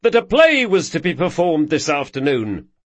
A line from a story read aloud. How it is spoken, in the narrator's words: yelled Carlo